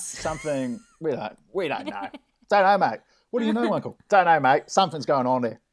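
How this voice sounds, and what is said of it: Put-on Australian accent. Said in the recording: “You've got to really say it with an Australian accent.”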